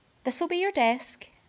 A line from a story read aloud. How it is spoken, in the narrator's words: she said kindly